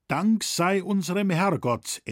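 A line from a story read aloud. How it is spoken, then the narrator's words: Stern reply. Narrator (German): entgegnete streng der Landrichter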